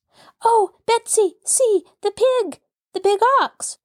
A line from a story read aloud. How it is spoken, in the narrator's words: cried Molly